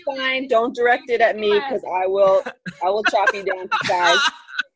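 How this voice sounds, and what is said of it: Brooklyn New York accent. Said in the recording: “She's from New York. Are you from New York? ... Brooklyn. Okay. That's where the accent's from.”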